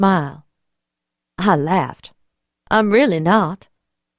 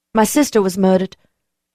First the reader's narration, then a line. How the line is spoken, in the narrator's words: I blurted